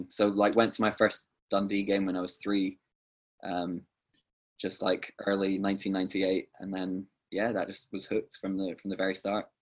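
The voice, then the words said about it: Scottish accent. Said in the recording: “you have the Scottish accent.”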